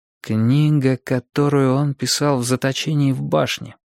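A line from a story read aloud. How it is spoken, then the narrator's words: Muttering. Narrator (Russian): пробормотал я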